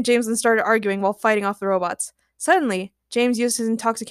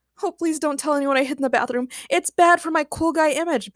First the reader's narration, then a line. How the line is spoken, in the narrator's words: Batch pleaded